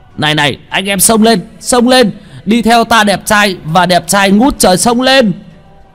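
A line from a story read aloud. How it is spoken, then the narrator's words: Bellowing. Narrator (Vietnamese): Tên mập gào lên một tiếng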